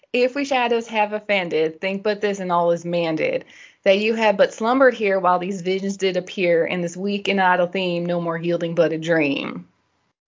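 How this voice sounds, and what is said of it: Put-on Southern American accent. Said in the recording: “This is my best Southern accent and also my best Shakespeare as I'm getting into it.”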